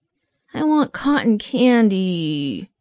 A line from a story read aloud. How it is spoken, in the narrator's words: whined Casey, but his tone suggested that rational thought might slowly be returning